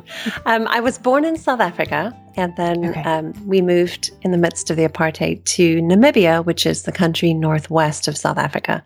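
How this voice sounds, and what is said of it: South African-sounding foreign accent. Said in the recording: “tell me where you're from originally. I can tell. ... I sound weird. ... Not weird, different. ... You sound just completely delightful.”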